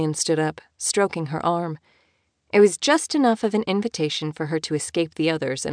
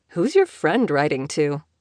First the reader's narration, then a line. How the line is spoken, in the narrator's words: Killian asked